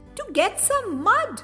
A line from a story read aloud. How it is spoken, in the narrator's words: Roo answered excitedly